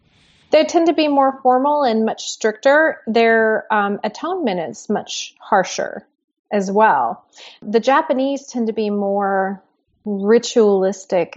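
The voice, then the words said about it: Slight non-native English accent. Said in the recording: “in my normal voice, I do have a bit of an accent. English was not my first language”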